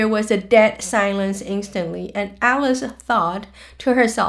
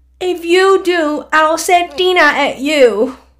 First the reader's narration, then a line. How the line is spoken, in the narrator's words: Alice called out as loud as she could